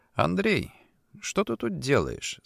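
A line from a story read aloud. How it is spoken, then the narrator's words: Calm but firm. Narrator (Russian): спросил спокойно, но твердо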